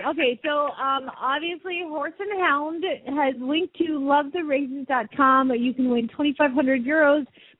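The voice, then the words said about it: Southern accent. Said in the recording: “your crazy accent ... I have a better accent than all these women combined ... Oh, Southern! ... Obviously.”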